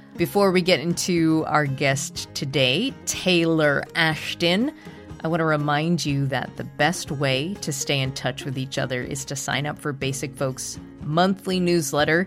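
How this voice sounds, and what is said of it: Congested, stuffy-nosed voice. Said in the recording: “the stuffy-headed ... I apologize for the way my voice sounds on this episode. I've been hit with the summertime cold.”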